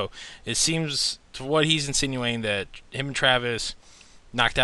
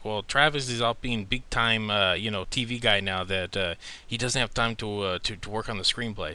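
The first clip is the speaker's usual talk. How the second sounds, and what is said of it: Imitates another person's accent. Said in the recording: “Did you just attempt a Guillermo accent? ... little accents”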